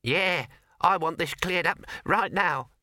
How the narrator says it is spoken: squeaked the mouse

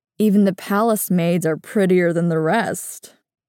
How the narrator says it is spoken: he chuckles

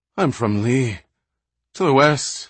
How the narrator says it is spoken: Minion managed to gasp out, his voice thick and strange to his own ears

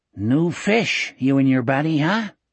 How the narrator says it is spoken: he asked

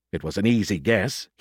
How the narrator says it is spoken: he muttered

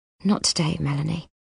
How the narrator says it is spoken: she says, and her voice is as sad as her face

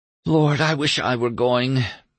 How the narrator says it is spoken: moaned Julian

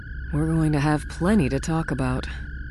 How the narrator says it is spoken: Leia murmured

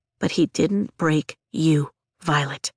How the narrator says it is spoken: Liam says softly from the corner of the room

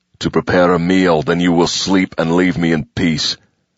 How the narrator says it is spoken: he growled over his shoulder

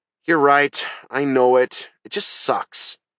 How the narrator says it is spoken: She sighed and said

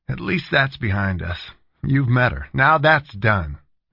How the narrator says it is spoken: he said, looking relieved

